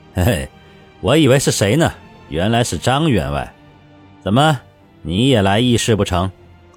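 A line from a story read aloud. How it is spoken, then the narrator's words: Cool, insincere smile. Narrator (Chinese): 刘辅国皮笑肉不笑，淡淡的开口道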